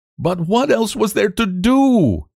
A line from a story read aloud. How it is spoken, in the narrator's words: He cried